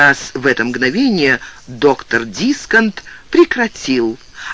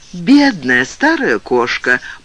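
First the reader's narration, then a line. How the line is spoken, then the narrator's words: Purr. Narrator (Russian): промурлыкала Джон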